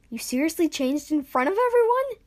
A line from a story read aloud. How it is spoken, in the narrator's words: Ash exclaimed